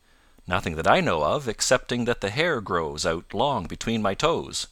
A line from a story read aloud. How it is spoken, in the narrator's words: Jumper replied